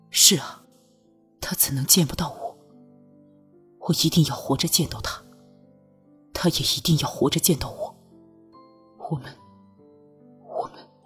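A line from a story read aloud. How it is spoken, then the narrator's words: Incoherent rambling. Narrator (Chinese): 拓桑语无伦次，说什么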